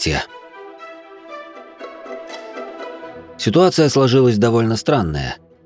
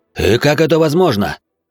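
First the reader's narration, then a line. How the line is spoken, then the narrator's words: Barking. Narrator (Russian): рявкнул Князев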